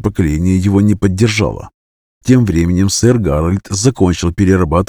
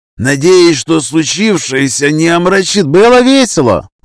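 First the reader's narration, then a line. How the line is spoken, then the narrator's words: Young person shouting. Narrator (Russian): выкрикнул кто-то, судя по голосу, кто-то из молодежи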